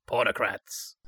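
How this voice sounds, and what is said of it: Imitates another person's voice. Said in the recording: “my impression of Dave the Barman”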